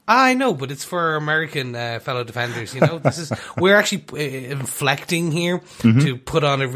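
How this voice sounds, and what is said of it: Usual voice. Nothing is said of it.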